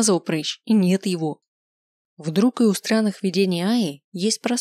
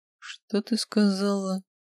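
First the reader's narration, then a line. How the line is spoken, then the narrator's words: Quiet question. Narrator (Russian): спросил он тихо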